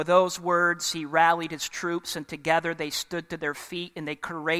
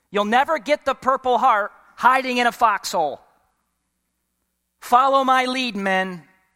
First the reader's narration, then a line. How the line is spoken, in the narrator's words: hoping to motivate his troops to take up arms, yelled